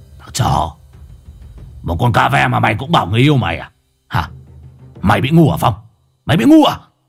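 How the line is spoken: Harsh, through gritted teeth. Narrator (Vietnamese): Lão Hùng gằn giọng

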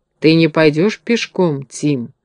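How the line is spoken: Plain. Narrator (Russian): сказал Страшила

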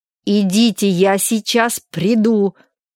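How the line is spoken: Angry repetition. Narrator (Russian): сердито повторил он

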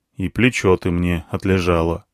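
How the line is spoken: Grumbled. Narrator (Russian): буркнул я

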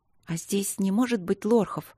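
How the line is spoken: Quiet, despairing question. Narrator (Russian): тихо спросила она, отчаявшись найти удобную позу

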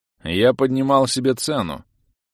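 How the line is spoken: Carefree mocking. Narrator (Russian): беззаботно признался оборотень, насмешливо

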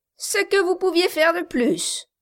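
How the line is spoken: Sneering snicker. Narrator (French): dit Quilp en ricanant

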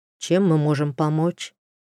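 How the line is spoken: Sighing question. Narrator (Russian): вздохнули и спросили

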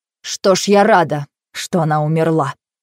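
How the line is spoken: Cold, losing control. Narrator (Russian): Не совладав с собой, она сказала холодно

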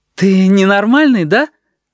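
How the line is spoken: Asked joyfully. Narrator (Russian): радостно спросила Аечка

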